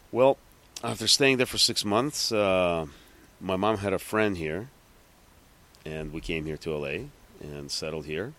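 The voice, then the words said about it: New York accent. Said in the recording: “you got a New York accent within 6 months”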